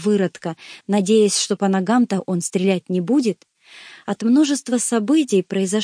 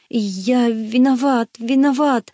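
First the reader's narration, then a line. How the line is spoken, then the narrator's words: Tearful whimpering. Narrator (Russian): захныкал Гектор со слезами на глазах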